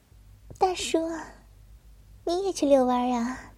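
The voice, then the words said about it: Quiet, coquettish flirtatious voice. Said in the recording (Chinese): “小声妩媚的问道”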